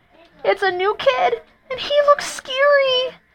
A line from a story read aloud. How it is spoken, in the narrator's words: cried Joey Mackerel